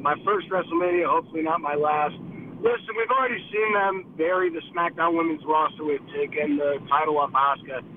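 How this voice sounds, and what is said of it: Hoarse, nearly lost voice. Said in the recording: “my voice is out.”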